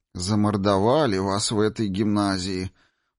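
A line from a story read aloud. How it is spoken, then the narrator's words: Kindly woman's mutter. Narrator (Russian): пробурчала сердобольная женщина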